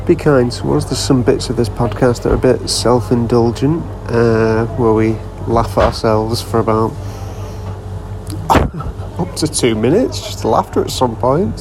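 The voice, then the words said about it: Whispering quietly. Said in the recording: “I'm currently whispering into my backpack because I've edited this in a Costa and don't want anyone to hear me.”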